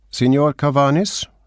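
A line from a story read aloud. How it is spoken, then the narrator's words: Called out. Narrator (German): rief er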